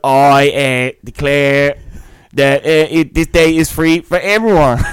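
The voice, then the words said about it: Imitates a cartoon mayor's speech voice. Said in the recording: “do a good impression of Mayor Quimby ... Oh, that's actually all right. ... It started off all right. It dipped.”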